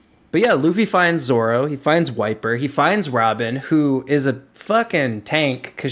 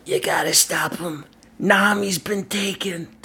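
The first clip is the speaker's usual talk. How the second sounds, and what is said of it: Imitates a cartoon character's voice. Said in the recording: “That's my Robin impersonation.”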